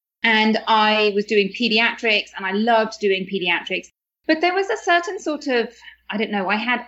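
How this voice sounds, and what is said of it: British accent. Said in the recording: “you can probably tell from my accent that I'm from the UK”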